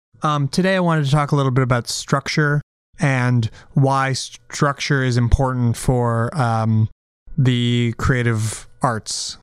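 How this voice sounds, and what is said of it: Slightly strange, sick-sounding voice. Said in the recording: “I've been a little bit sick, so I apologize if my voice sounds a little bit strange today.”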